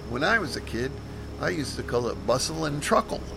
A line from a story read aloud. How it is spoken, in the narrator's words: I gave a chuckle and mentioned